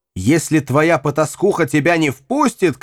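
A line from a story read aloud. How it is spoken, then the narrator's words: Shouting. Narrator (Russian): кричал Нири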